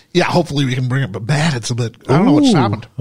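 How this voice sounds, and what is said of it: Hoarse, failing voice. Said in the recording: “Oh, my word, my voice is gone ... Something's like in the back of my throat.”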